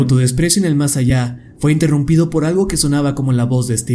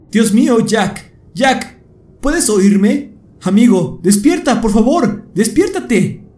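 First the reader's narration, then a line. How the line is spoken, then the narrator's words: Shouting. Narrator (Spanish): gritaba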